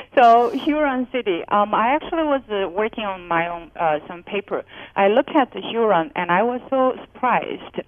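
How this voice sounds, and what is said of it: Speaks with a noticeable non-native accent. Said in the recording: “I'm testing our audience tolerance with my accent.”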